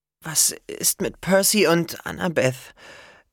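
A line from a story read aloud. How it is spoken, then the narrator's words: Cracking voice. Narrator (German): fragte Hazel mit brüchiger Stimme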